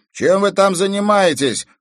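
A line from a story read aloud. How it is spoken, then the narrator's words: Shout from downstairs. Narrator (Russian): крикнул с первого этажа Игорь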